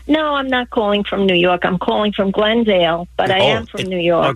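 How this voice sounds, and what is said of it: New York accent. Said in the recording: “are they telling me you're calling from New York? ... Okay, the accent.”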